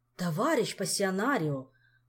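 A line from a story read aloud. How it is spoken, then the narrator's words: Exclaim. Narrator (Russian): воскликнул он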